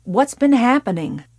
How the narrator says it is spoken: Doyle asked curtly

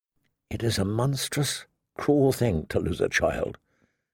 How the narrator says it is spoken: she whispered softly, more to herself than to her father

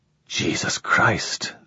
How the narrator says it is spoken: whispered

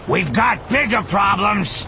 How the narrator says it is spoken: Skelly yelled

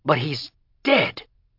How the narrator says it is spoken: Greg cried in desperation

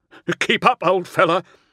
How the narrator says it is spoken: One of the raptors laughed

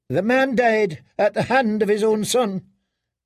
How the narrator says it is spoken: Ilaria snapped back

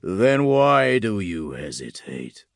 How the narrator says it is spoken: a voice rumbled

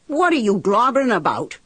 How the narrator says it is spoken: I shouted at him

